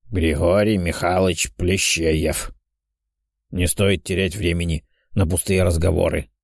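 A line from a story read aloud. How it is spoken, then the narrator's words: Old man's creaky grumble. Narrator (Russian): проворчал старик скрипучим голосом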